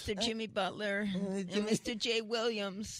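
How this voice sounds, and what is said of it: Childlike voice like a young kid. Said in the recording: “can do that voice ... an 8-year-old kid calling into the show?”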